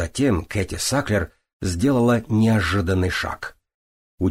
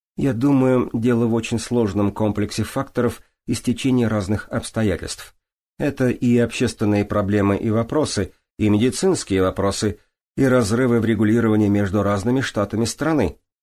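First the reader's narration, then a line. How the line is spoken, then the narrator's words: Plain. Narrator (Russian): ответила Кэти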